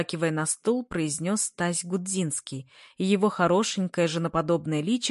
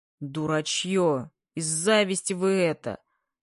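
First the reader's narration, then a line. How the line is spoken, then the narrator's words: Good-natured deep bass. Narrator (Russian): Нисколько не обижаясь, басил Бабаев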